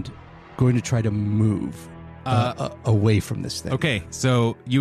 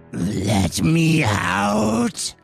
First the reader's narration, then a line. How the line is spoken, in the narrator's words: Just scream out as loud as he can